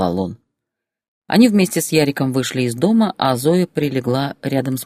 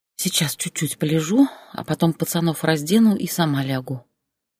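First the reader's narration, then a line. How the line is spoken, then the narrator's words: Sleepy whisper. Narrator (Russian): прошептала она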